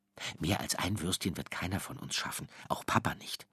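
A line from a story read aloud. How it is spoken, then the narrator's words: Quiet muttering to himself. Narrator (German): sagt er leise zu sich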